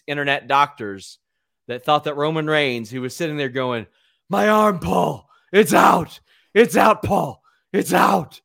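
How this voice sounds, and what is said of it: Impression of Roman Reigns. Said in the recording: “that's your impersonation of ... Roman.”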